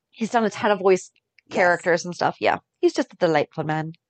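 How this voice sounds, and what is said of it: Sudden put-on accent. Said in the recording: “I'm not sure where that accent came from”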